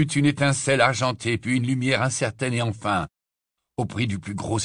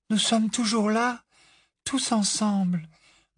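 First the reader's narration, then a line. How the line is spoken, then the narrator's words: Murmuring. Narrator (French): murmura-t-elle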